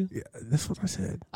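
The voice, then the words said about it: Whispering. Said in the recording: “you're whispering”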